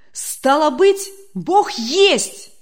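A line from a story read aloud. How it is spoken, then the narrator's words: Joyful exclamation. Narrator (Russian): радостно воскликнул Демьян Лукич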